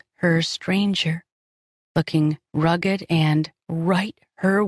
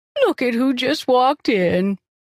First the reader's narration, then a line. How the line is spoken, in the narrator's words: Irene cooed